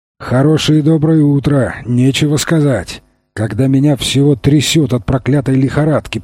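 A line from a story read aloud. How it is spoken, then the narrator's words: Grumbled. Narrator (Russian): проворчал он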